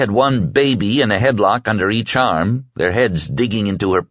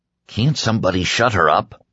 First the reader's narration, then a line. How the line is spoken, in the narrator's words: Chris Ortega had grumbled from the back of the plane